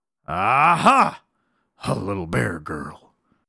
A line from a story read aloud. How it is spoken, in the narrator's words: growled the lion